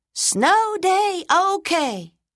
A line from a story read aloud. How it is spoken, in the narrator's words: Tyrone shouted